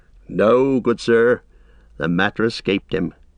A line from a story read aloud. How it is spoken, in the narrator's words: answered Merry gravely